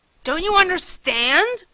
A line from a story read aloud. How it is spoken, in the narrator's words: I snarled